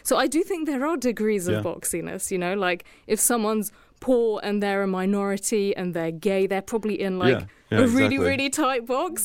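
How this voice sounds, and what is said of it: Posh accent. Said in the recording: “I've got a posh accent”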